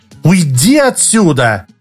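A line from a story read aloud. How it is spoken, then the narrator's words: Woman's shout. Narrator (Russian): крикнула женщина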